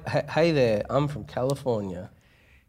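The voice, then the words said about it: Pretty good put-on American accent. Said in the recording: “American accents ... That's pretty good.”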